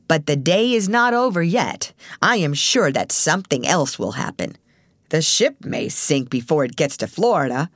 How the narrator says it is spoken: sneered the gloomy actor

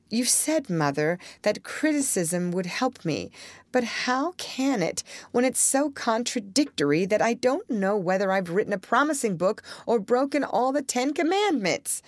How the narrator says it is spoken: cried poor Jo

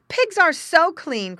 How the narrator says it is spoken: cried the boy

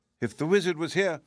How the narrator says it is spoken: said one of the piglets, sobbing bitterly

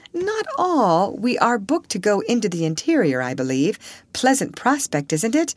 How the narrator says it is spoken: she said with a frank laugh

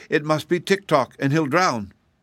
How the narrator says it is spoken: cried Betsy

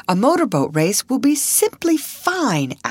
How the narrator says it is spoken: Alice exclaimed

